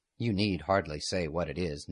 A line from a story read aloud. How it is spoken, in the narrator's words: Ned said gravely